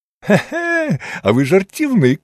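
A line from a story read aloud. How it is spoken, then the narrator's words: Laughing. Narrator (Ukrainian): засміявся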